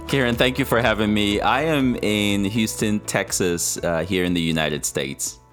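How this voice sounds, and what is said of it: Texan accent. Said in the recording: “absolutely gorgeous Texan accent”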